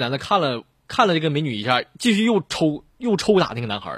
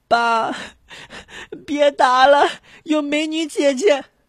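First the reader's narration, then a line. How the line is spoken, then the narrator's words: Boy crying. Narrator (Chinese): 那个男孩就哭着说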